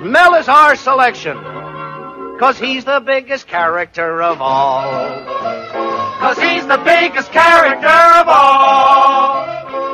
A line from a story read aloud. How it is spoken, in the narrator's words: Producers hollered